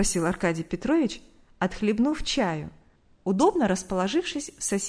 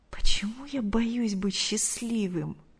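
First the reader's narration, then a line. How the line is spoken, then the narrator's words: Horrified whisper. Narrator (Russian): с ужасом прошептал Артур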